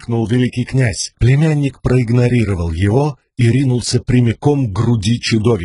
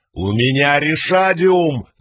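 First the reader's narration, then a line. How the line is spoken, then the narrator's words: Yelling back. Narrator (Russian): заорал Далинор в ответ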